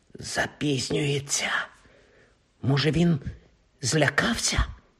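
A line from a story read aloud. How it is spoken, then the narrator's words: Whispered. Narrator (Ukrainian): прошепотів Рон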